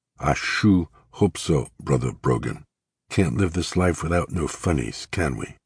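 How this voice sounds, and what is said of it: Lowered voice, broad Southern accent. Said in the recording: “dropping his voice and speaking in a broad southern accent.”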